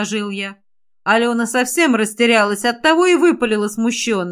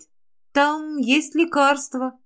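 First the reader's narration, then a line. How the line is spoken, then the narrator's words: Uncertain reply. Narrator (Russian): неуверенно ответила Алена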